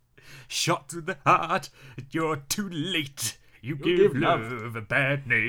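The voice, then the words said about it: Sung impression of a rock singer. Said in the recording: “Stop with the fucking accents. ... That was my impression of Bryan Adams.”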